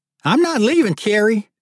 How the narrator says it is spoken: hollered Marty

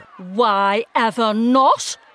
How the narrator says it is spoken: snapped Camilla

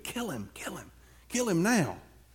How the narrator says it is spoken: they whispered to David

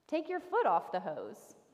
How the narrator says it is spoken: he said gently

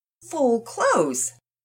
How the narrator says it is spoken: Mama Peters chuckled

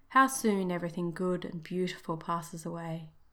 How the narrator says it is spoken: sighed the elf

